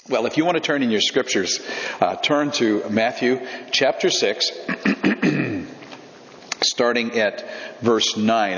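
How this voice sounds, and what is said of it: Slightly raspy voice. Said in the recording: “Excuse my voice. It's a little bit, little raspy. ... I've had some bronchitis this week”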